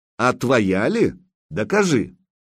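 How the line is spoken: Angry snorting. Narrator (Russian): Косматый засопел сердито

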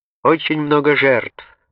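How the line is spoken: Shout. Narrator (Russian): крикнул деревянная нога

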